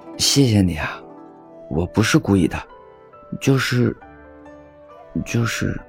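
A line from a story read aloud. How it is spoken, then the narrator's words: Shy, low voice. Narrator (Chinese): 时也羞红了脸，低声说道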